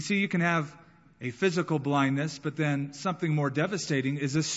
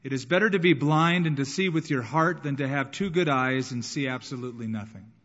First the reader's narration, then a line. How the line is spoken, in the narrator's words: she quickly responded by saying